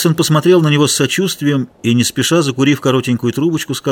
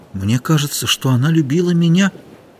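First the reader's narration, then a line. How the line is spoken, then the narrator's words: Quiet. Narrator (Russian): тихо сказал Ихтиандр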